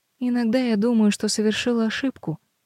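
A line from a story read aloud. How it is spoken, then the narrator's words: Sad, smiling. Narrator (Russian): грустно улыбается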